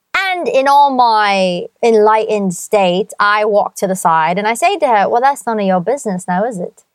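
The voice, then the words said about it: Speaks with a noticeable accent. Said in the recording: “If you can stand the accent,”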